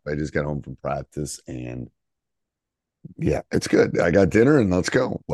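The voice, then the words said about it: Strained, worn-out voice. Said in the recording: “My voice is shot”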